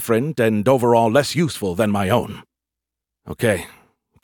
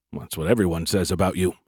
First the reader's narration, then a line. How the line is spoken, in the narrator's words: I mumbled